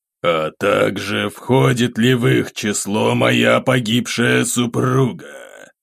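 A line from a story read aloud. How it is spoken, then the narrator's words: Suppressed-rage growl, lizard. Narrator (Russian): едва сдерживая гнев, прорычал ящер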